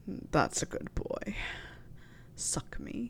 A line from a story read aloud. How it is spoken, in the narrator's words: Snape murmured